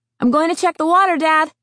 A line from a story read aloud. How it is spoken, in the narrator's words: Josh shouted